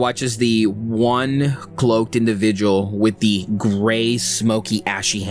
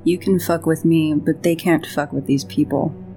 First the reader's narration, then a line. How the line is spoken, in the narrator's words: Rid says, under her breath